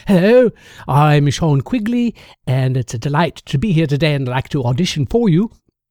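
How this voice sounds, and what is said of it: Put-on British accent. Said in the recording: “let your British accent be what it is ... you can tell me how good my accent was now”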